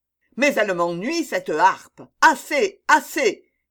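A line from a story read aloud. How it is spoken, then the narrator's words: Exasperated shouting. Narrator (French): criait le poète exaspéré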